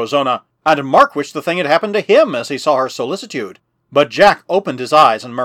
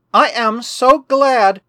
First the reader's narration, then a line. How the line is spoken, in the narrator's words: exclaimed the girl in blue